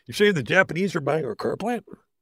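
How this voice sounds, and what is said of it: Bad impression of a famous actor. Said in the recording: “My impression that I do that nobody knows is of one of my favorite actors of all time. And it's so bad. ... He's Michael Keaton. ... And it's from Gung Ho.”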